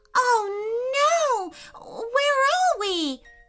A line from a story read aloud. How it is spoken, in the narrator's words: cried Audrey